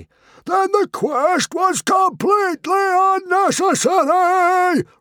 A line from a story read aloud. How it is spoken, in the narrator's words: roared Stoic